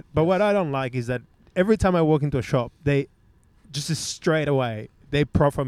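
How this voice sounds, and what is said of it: Australian accent with slight Latino hint. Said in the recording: “I love his accent because it's Australian, but there's also like a hint of Latino in there”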